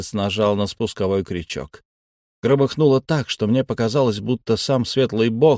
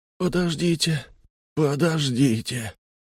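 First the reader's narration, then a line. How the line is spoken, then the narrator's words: Moaning from a cabin. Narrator (Russian): простонали из каюты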